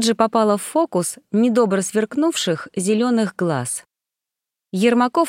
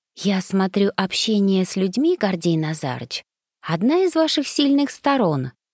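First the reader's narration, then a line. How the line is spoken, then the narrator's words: Impulsive whisper. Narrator (Russian): не сдержавшись, шепнула я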